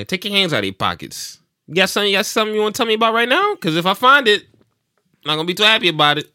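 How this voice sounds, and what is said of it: Stern New York cop accent. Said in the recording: “my cop accent ... Are you like a New York cop? ... really stern”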